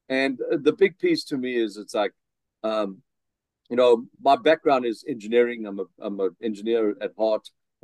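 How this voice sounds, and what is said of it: South African accent. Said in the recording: “I still have my South African accent, so that doesn't disappear”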